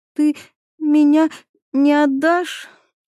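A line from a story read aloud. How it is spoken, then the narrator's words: Sobbing question. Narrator (Russian): всхлипывая, спрашивает Катя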